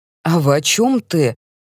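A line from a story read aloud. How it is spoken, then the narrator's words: Irritated reply. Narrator (Russian): раздраженно отзывается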